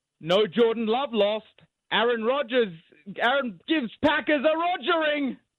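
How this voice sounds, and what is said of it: Put-on English accent. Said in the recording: “Big in England. That'd be big in England... The accent always helps.”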